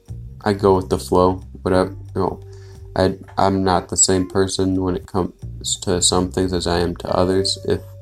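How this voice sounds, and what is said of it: Calm monotone voice. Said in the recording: “I have an obnoxiously monotoned voice, a very calm voice”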